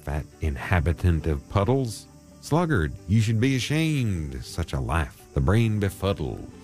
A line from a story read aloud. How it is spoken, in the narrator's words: he exclaimed